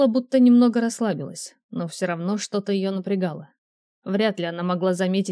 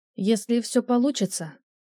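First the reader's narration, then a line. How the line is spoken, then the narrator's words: Quiet. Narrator (Russian): тихо сказала Тейла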